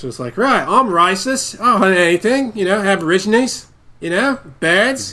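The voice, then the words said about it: Put-on Australian accent. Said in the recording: “how do I do an Australian voice?”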